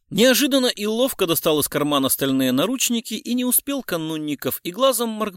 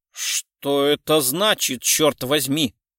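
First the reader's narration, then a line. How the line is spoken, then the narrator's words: Pale, through clenched teeth. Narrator (Russian): бледнее произнес сквозь зубы Канунников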